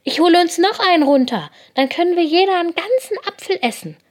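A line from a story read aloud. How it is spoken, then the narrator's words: Excited. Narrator (German): sagt Lina und ist ganz aufgeregt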